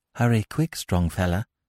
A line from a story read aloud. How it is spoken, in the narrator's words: said Zami softly